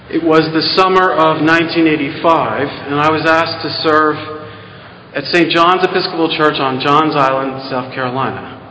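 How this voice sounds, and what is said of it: Non-Southern American accent. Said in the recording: “I bet you can tell by my accent that I wasn't raised or born in the South”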